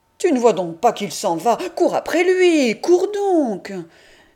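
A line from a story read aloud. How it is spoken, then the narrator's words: Boy's booming shout. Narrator (French): le garçon qui crie d'une voix de stentor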